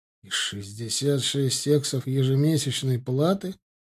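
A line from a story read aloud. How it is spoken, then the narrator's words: Through gritted teeth. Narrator (Russian): процедил Ардан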